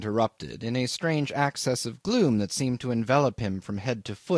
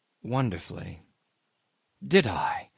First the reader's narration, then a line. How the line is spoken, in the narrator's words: he repeated bitterly